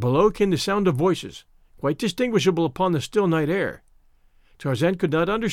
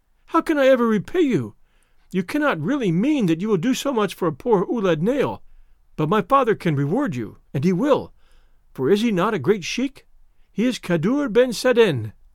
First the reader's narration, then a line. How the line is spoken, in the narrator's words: cried